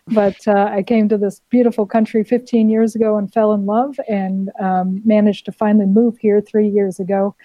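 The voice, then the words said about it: Non-Australian foreign accent. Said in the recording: “your listeners can already tell by my accent that I'm not a native of Australia”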